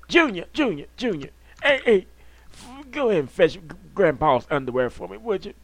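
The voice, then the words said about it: Old man voice. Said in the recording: “you do have a good old man voice”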